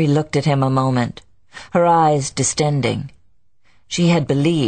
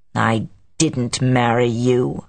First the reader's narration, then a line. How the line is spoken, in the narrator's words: he said in a snarling tone